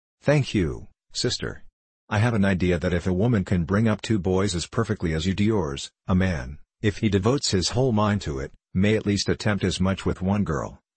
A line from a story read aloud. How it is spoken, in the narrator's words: replied Dr